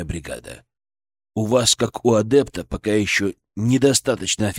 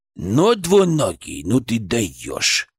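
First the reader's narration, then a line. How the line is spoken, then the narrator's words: Creaky voice inside head. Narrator (Russian): проскрипел он у меня в голове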